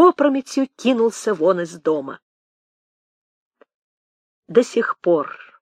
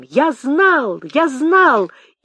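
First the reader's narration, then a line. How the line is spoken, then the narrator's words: Tearful ecstatic high-pitched cry. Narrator (Russian): Он задохнулся от восторга, в слезном спазме выкрикнул дисконтом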